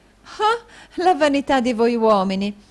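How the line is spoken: Exclaimed. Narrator (Italian): esclamò la signorina Snevellicci

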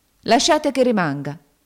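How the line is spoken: Exclaimed. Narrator (Italian): esclamò St

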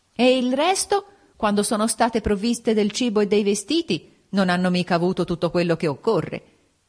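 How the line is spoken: Yelling. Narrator (Italian): Urlava

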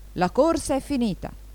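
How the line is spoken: Exclamation. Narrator (Italian): il dronte esclamò

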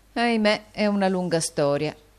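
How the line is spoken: Plain. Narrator (Italian): rispose Nicola

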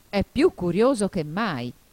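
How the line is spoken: Griffin exclaiming. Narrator (Italian): esclamò il grifone

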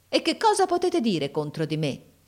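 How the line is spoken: Brother exclaiming. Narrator (Italian): esclamò mio fratello

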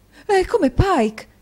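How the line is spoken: Exclaiming. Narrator (Italian): esclamò la signora Nickleby

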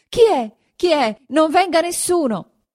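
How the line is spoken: Terrified shout. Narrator (Italian): alzando la faccia atterrita, gridò

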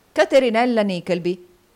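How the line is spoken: Exclaiming voice from behind. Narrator (Italian): esclamò una voce dietro di lui

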